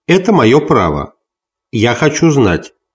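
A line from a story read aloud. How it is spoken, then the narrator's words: Plain young woman. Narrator (Russian): сказала девушка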